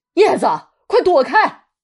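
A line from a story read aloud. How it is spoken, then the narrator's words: Anxious group shouting. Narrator (Chinese): 大人有点急了，纷纷喊着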